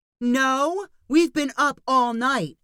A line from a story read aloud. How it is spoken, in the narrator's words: Ali yelled back